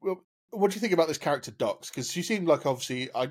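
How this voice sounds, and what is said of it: Usual voice. Nothing is said of it.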